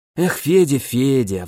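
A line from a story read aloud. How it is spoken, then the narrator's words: Sighing friend. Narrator (Russian): вздохнул друг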